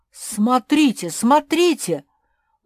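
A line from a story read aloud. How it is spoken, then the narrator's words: Sudden shout. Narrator (Russian): вдруг закричал Макс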